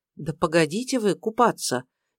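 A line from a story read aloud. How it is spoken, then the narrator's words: Frightened. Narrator (Russian): испуганно проговорила Даша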